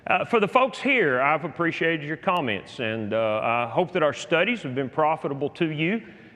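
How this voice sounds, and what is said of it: Speaks with a noticeable accent. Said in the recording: “my biased and accent ... this is the accent of the angels”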